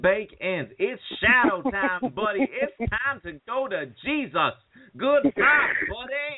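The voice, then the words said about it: Put-on accent, well delivered. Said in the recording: “I love the accent. That was delivered perfectly, man. ... I need some work on my vowels.”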